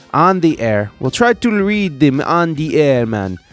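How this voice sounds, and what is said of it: Unidentifiable put-on foreign accent. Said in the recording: “I don't know what accent that was. I feel like I've offended a whole nation right now.”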